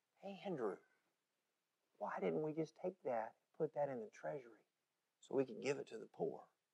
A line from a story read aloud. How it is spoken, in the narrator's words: Judas began to whisper